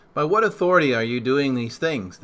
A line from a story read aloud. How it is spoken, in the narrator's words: they asked